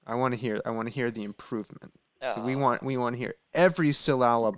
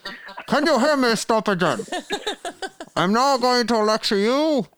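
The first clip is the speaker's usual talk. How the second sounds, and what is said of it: Imitates another person's voice, muffled. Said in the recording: “my Bernie Sanders impression through a towel”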